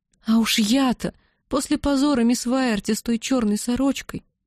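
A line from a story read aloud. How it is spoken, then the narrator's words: Sigh. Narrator (Russian): вздохнула Бетси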